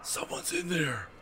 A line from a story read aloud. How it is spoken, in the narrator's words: Corey whispered